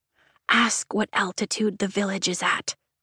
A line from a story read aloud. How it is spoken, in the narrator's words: I whisper to Rhiannon